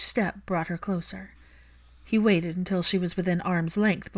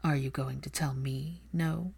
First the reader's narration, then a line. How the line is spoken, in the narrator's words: Draco murmuring